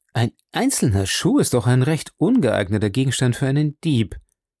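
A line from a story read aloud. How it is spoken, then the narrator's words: Plain. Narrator (German): sagte Sherlock Holmes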